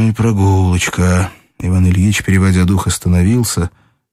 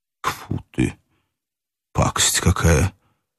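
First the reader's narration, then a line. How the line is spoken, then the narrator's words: Breathless mutter. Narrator (Russian): пробормотал Иван Ильич, все эти минуты стоявший, затаив дыхание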